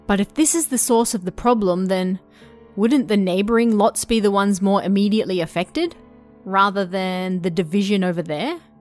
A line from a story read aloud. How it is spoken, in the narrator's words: I asked